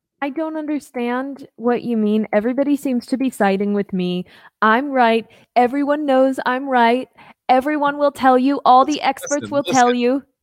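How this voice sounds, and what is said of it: Imitates another person's voice, badly. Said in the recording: “doing a very bad Trump impersonation”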